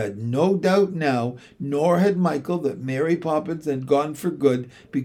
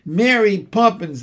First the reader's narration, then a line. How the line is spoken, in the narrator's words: they cried